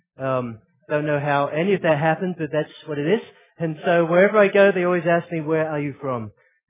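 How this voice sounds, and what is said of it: Australian-sounding mixed accent. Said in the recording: “Just have an acute accent confusion syndrome ... now somehow got an Australian accent.”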